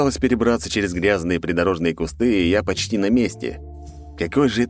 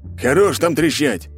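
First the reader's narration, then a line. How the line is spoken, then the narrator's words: Barked right in ear. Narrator (Russian): рявкнул мне прямо на ухо мужик, что встал в очередь за мной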